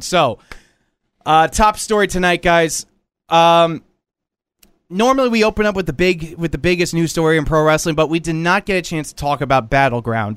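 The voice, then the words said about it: Hoarse, strained voice from cold. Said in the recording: “my voice is completely shot. I am still recovering from a cold”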